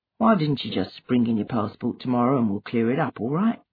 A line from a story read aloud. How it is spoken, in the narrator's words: Obinze mumbled the first words that came to him